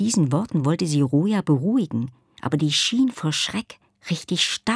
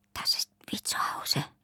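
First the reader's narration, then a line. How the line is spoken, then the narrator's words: Whispering. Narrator (German): flüsterte Roja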